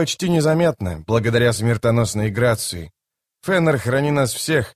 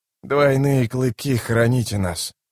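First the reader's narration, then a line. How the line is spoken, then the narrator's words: Hoarse whisper. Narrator (Russian): хрипло прошептал Итковиан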